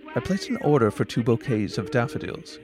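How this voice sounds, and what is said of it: Slight English accent. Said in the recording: “a slight English accent”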